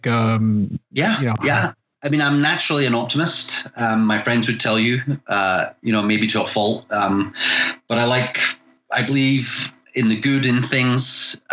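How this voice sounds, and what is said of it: Scottish accent. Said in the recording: “if you can't tell from my crazy accent, I'm originally from Scotland”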